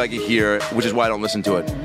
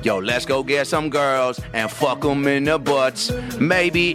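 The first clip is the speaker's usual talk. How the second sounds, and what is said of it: Mock rapper voice. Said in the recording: “Here's my impression, right? Here's my impression of most rap.”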